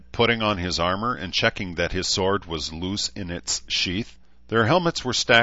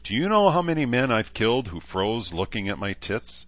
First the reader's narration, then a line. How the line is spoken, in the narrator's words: asked, laughing merrily